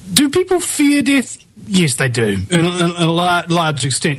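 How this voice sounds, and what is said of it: Charming accent. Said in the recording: “I love your accent, by the way. It's just very charming.”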